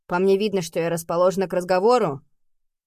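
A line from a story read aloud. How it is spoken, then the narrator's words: Menacing growl. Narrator (Russian): прорычала слишком грозно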